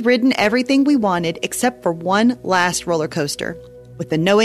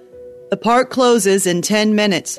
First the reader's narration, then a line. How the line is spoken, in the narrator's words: the person over the loudspeaker boomed